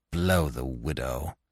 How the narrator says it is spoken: he growled

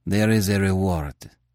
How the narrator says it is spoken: he said sullenly

